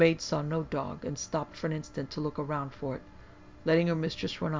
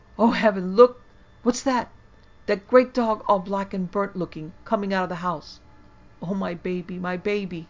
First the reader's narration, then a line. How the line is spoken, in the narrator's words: Lily was first and cried out